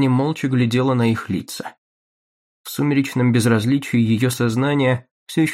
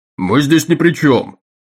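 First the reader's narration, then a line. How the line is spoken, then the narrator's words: Yelling. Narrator (Russian): заорал Таггерт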